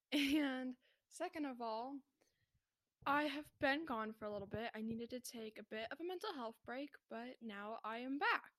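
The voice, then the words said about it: Voice sounds off from illness. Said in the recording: “my voice is a little off. I have COVID currently”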